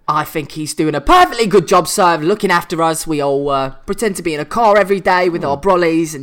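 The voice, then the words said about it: Cockney accent with northern A sound. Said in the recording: “you sort of said that with a northern A sound there ... You've been speaking with this lovely Cockney accent throughout, and then that dropped in”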